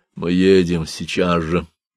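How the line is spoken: Tight, heavy voice. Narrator (Russian): Он сказал Едикону таким же тугим, тяжелым голосом

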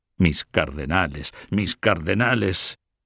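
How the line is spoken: Grumbling growl. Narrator (Spanish): gruñó el otro

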